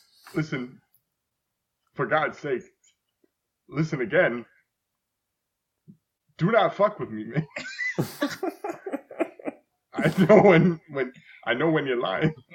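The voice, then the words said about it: Imitates another person's voice, many pauses. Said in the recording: “it's the way he talks is so weird ... There's so many pauses. ... that impression ... what Walken sounds like”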